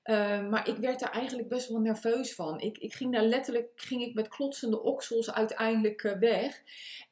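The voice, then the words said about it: Hague Dutch accent. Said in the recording (Dutch): “ik heb natuurlijk een Haags accent ... een beetje dat, dat Engelse er doorheen”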